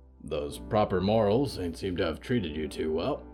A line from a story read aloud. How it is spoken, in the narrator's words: Hector grunted